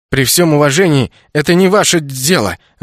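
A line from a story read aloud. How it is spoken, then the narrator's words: Snapping back. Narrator (Russian): огрызнулся я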